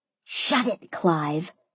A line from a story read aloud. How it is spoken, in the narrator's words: I hissed